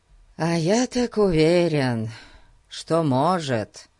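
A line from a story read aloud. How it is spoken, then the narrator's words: Sighing. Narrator (Russian): вздохнул Фати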